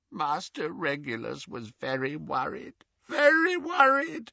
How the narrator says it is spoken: croaked Creature

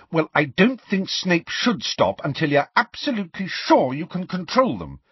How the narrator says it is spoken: said Hermione indignantly

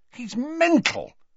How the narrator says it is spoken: he said furiously

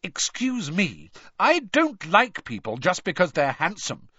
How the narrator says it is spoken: said Hermione indignantly

